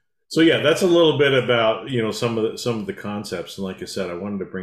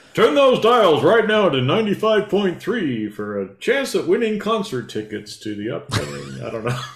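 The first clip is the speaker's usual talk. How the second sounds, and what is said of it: Radio DJ announcer voice. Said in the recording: “My little DJ voice.”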